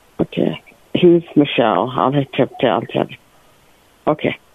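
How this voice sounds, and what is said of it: Quiet mumbled speech. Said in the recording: “Can you speak up? Stop mumbling.”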